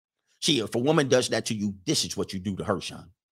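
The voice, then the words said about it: Imitates a pickup-coach's voice. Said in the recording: “the Black PUA impersonation”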